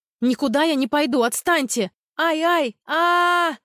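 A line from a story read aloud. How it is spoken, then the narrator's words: Screaming at full force. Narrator (Russian): Заорала, что было мочи, в надежде, что кто-то услышит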